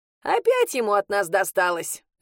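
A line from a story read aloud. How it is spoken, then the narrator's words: Laughing. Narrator (Russian): рассмеялась Матрена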